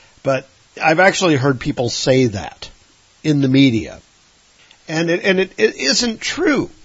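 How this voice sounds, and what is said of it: Usual voice. Nothing is said of it.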